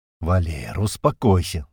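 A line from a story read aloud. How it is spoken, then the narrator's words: Sighing bird. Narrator (Russian): вздохнул грач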